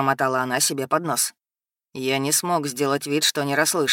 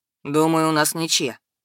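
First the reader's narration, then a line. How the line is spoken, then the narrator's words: Dry reply. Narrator (Russian): сухо ответил я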